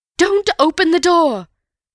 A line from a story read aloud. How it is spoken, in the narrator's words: cried Mrs